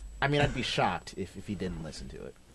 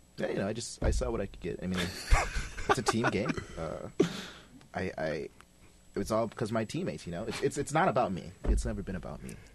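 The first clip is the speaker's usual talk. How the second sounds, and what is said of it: Impression of Tyus Jones. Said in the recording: “your best Tyus Jones impersonation ... I have to get into character.”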